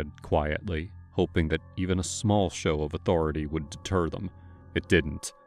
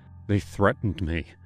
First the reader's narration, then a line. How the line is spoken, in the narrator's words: I told, my voice trembling